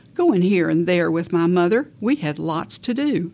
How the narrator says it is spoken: She answered firmly

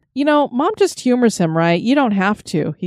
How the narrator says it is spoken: chuckled

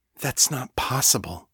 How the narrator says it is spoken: Sasha whispered

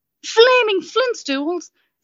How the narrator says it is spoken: Zarantha exclaimed

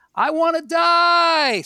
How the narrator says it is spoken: Screams

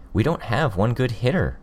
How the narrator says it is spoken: Imp said

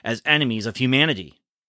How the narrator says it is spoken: barked

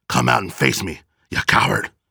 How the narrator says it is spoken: Phoenix barked

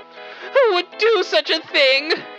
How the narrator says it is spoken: cried

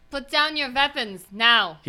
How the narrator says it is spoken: Agata yells out

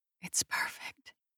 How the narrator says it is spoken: whisper back

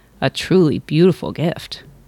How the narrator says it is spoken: murmured the king

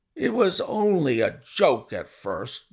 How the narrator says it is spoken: groaned our visitor

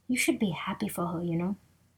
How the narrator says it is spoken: a dirty pan whispered to dessert

